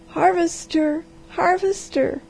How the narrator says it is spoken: she cried

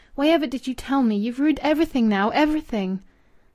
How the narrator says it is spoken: she cried passionately amid her sobs

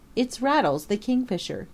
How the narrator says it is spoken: he cried

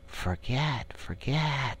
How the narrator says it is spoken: they sigh, and it dies away in a rustle and a whisper

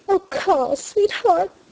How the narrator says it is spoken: she cried

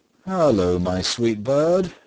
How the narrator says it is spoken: said he, laughing merrily

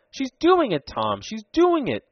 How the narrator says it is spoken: cried Ned exultingly

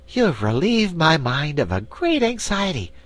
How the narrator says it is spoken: declared the Patchwork Girl, now speaking more cheerfully

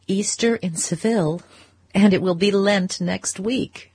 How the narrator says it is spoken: she laughed

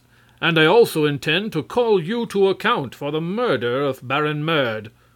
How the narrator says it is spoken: Prince Marvel announced in a bold voice

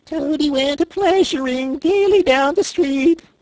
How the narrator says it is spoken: the chief weasel began in a high, squeaky voice

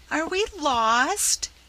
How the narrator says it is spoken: quavered Rob, in despair

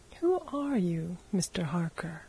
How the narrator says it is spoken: asked Bryce quietly

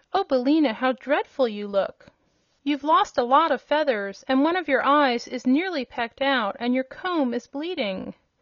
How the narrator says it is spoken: exclaimed

